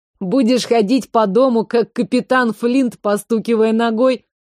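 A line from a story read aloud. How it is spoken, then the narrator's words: Laughing. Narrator (Russian): рассмеялся Томми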